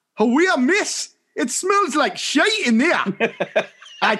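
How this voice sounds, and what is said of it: Broad Mackem Sunderland accent. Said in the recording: “with a broad Macam ... I can't do the accent ... with a very broad Macam accent”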